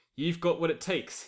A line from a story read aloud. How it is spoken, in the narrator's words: he says